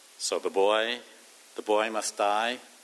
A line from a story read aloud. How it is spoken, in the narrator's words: asked Professor Snape